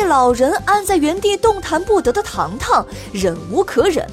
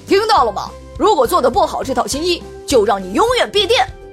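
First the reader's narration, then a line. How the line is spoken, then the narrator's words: Angry roar. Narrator (Chinese): 一旁的跟班赶紧上前怒吼道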